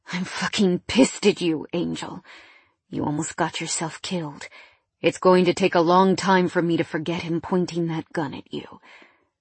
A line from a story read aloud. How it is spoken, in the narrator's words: he said with a growl